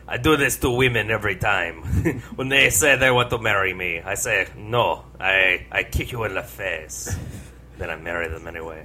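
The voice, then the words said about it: Jean-Claude Van Damme impression, French accent. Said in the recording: “I am Jean-Claude Van Damme. ... That was a good Pepe Le Pew accent.”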